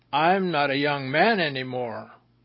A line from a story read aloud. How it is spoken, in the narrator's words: Daniel, 67, said in an angry tone